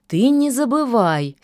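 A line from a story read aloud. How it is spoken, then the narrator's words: Angry objection. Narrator (Russian): сердито возразила лишачиха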